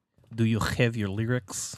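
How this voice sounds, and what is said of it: Put-on Russian/Belarusian accent. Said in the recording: “Is that your Russian accent? ... It's my Belarusian accent.”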